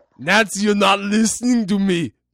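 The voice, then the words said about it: Put-on Austrian accent. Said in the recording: “The accent is killing me. It's killing me. ... Austria”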